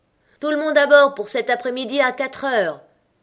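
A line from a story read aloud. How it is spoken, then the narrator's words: Shouted from afar. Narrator (French): lui cria de loin le chevalier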